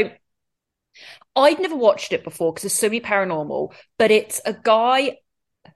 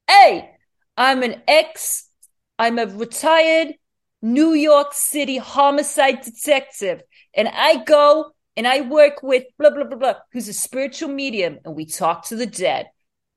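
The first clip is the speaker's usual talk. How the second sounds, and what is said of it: Put-on New York accent. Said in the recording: “I can do some accent work here ... I just got transported to New York.”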